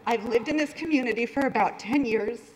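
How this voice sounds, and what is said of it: Tearful, emotional voice. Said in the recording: “hear the tears in my voice.”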